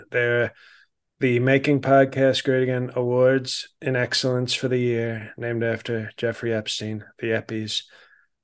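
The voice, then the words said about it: Donald Trump impression. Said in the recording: “the President of the United States of Mar-a-Lago of America, Mr. Donald J. Trump”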